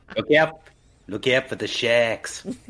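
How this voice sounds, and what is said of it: Put-on Kiwi accent. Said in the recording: “wanted to do a Kiwi accent”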